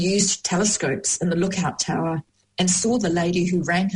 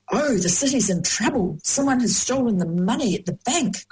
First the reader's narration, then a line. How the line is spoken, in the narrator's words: cried John